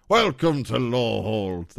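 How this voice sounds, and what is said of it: Imitates a ghost character's voice. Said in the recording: “That was my nearly headless Nick impression.”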